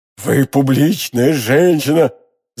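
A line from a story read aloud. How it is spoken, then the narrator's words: Thunderous declaration. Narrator (Russian): заявил он громовым голосом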